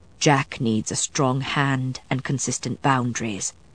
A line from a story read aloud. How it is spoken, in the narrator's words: Matthew said softly